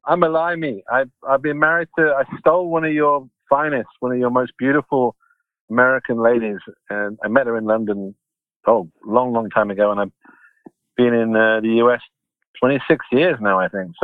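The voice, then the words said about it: British English accent. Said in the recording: “my accent's still pretty British though, isn't it? ... Yes, I can hear it”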